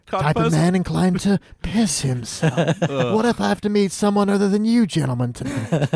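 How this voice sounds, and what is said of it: Imitates a villain character's voice. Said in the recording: “That's a pretty good impression.”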